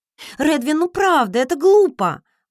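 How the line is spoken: Woman's exclamation. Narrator (Russian): воскликнула я

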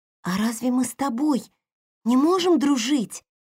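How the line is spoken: Sudden, excited question. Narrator (Russian): вдруг спросила Хейли, взволнованно

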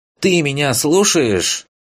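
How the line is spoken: Indignant exclaim. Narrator (Russian): Возмущенно воскликнула Ленара

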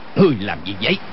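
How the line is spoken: Shouting. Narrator (Vietnamese): Y quát lên

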